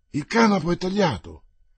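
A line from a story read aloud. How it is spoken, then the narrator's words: Sailor exclaiming. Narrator (Italian): esclamò il marinaio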